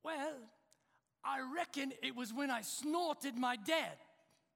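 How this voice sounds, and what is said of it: Bad put-on British accent. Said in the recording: “that's a bad British accent. That's British accent who lives in Southern Ohio”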